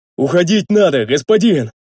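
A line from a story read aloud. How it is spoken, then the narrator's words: Roaring, heavy breathing. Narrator (Russian): Тяжело дыша проревел Рикар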